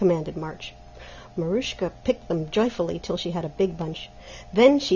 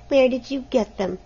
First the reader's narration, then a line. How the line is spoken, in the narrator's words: asked Helena sulkily